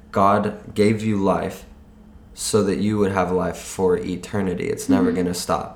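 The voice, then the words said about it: Hoarse, nearly lost voice. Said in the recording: “My voice is almost gone ... that's not my normal singing voice”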